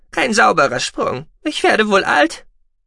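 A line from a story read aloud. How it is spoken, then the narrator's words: Small squeaky voice. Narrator (German): piepste der Kleine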